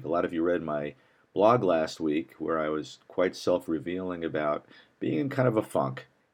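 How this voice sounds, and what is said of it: Hoarse, partly lost voice. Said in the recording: “I've lost my voice here a little bit”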